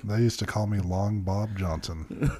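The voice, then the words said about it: Radio announcer voice. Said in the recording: “do my radio voice ... Let's see how long I can do my radio voice”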